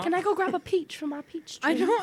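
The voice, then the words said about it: Put-on British accent, child voice. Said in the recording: “I don't know where that British accent came from”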